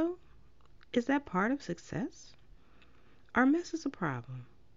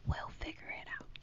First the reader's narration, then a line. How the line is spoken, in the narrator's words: smiled and whispered